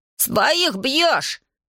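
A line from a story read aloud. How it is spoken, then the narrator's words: Confused, flustered shout. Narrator (Russian): Иван до того растерялся, что закричал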